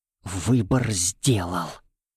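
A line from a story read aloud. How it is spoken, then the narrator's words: Terrified whisper. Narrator (Russian): прошептал он со все нарастающим ужасом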